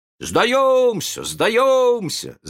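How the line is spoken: Group shouting. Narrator (Russian): закричали они

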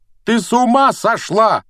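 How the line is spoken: Roaring. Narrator (Russian): проревел Гарри

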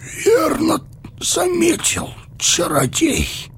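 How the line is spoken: Hoarse. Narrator (Russian): сипло заговорил Теоден

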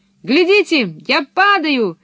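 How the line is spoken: Shouted. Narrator (Russian): крикнула Пеппи

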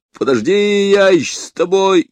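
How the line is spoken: Annoyed, suspicious shout. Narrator (Russian): Раздосадованный Гивенс, подозревая подвох, крикнул

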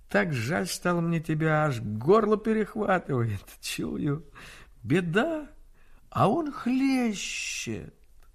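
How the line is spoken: Silky tender laughing speech. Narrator (Russian): Он засмеялся шелковым ласковым смехом, смеясь, говорил

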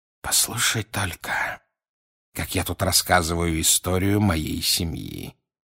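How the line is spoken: Quiet remark. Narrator (Russian): тихо заметил он

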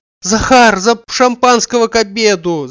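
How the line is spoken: Shouting. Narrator (Russian): закричал он

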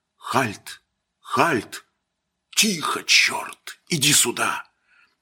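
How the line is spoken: Muffled whisper. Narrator (Russian): приложил ладони рукавом ко рту и зашептал

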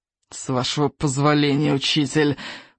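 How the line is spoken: Menacing hiss. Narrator (Russian): прошипел Сморкала, грозно

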